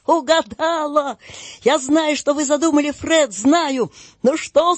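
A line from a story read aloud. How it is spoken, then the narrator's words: Shout. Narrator (Russian): закричал Фред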